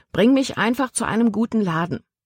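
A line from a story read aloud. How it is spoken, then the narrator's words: Plain. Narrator (German): sagte sie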